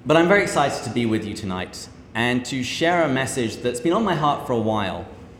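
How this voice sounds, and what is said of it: British accent. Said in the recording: “this delightful accent ... I'm not always easy to understand ... translating it into American”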